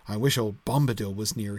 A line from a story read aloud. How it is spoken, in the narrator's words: muttered